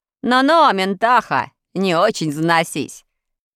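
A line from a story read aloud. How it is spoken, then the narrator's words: Cheerful shout, guest. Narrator (Russian): весело крикнул один из гостей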